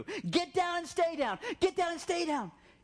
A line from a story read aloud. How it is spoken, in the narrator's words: they shouted in Hebrew